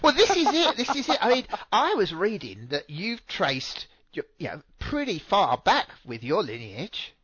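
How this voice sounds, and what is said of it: British accent. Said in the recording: “a nice British accent”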